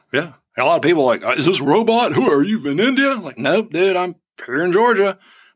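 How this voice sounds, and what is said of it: Southern US accent. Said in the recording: “I'll turn on my Southern accent a little bit ... If I have a Southern accent, I have a Southern accent.”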